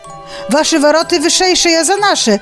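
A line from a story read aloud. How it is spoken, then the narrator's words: Shouting. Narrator (Belarusian): закрычаў капітан адной каманды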